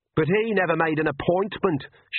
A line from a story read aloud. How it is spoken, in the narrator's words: shouted Agnes, even louder